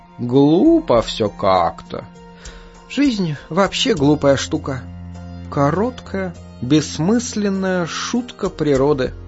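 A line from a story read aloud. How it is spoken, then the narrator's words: Quiet. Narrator (Russian): тихо произнесла бабочка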